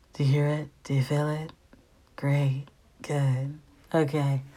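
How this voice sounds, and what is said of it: Put-on mellow voice. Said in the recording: “this is your mellow message. Got to put on the voice.”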